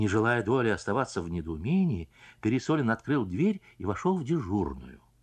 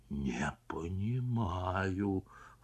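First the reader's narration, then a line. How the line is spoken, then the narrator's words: Whisper. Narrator (Russian): прошептал Пересолин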